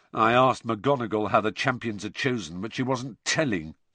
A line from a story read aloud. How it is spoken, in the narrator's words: said George bitterly